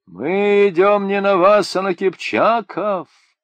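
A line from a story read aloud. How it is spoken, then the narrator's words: Loud booming reply. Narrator (Russian): зычным голосом отвечал бродник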